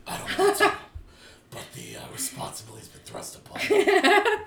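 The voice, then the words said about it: Batman character voice. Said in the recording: “That's not my Batman voice. ... great Batman impression.”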